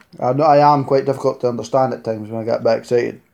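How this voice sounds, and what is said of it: Scottish accent. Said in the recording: “Live in Scotland, obviously. You couldn't tell with the accent. ... I will try and keep my accent to a reasonable level.”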